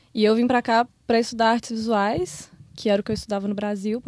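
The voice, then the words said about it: Belo Horizonte Brazilian Portuguese accent. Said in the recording (Portuguese): “De que cidade você... Eu sou de BH. ... Ah, Belo Horizonte. Eu tô vendo o sotaque.”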